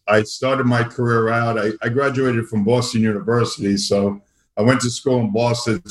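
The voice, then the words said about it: Brooklyn New York accent. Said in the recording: “I still cannot lose my uh, Brooklyn accent.”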